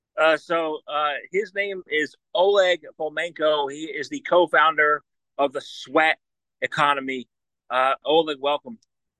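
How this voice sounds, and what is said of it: Energetic projected radio-host voice. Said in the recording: “You definitely have a kind of radio voice. ... I wish I could I could project that energy and excitement as you do.”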